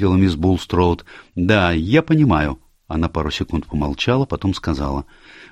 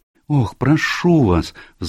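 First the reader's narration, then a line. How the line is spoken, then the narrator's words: Pleading. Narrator (Russian): взмолилась Джулия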